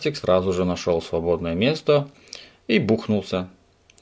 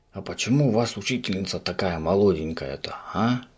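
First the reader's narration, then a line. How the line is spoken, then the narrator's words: Whispered question. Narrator (Russian): Шепотом спросил Субастик у своего соседа по парте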